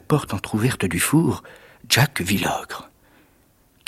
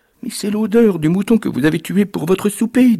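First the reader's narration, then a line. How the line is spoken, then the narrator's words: Woman's trembling voice. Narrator (French): dit la femme d'une voix tremblante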